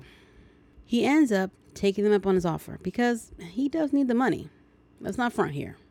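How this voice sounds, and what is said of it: Usual voice. Nothing is said of it.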